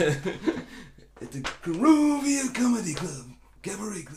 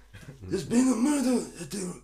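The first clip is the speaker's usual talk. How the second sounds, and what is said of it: Impression of The Godfather. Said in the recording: “doing an impression of The Godfather ... Did you do your impression? It was good.”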